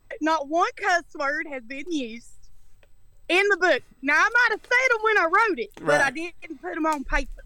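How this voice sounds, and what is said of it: New York area accent. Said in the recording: “you may be picking up on ... dialect. She is from the North Hamptons, up near the New York area ... I got that high class, big time loft, that penthouse accent”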